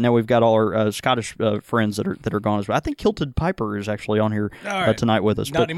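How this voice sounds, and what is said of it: Usual voice. Nothing is said of it.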